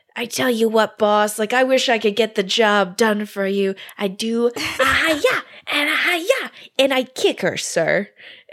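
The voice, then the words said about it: Deliberately bad cartoon character voice. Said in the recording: “You're really going all out on the impression? ... my very terrible Bartok impression.”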